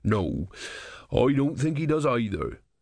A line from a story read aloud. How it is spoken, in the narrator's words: said gloomily